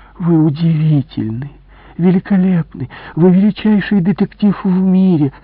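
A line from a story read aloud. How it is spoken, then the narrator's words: Deep sigh, theatrical. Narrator (Russian): она глубоко вздохнула и театрально произнесла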